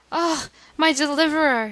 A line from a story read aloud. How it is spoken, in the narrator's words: cried, in heart-rending paroxysms of grief